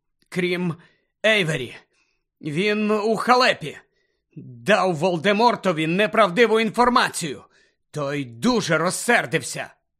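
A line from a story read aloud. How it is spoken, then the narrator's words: Moaning. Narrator (Ukrainian): Гаррі застогнав, тремтячи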